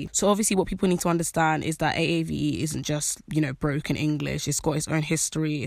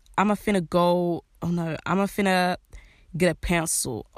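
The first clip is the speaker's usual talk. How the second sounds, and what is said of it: Poor put-on American accent. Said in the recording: “my American accent is horrible”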